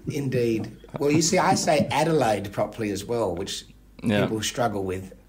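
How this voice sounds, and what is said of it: Adelaide Australian accent, rounded vowels. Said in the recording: “my particular Adelaide accent ... they're very rounded vowels”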